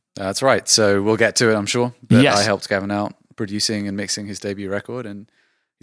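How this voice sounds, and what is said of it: British accent. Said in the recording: “Approximate a British accent to do it properly ... I could just listen to his accent”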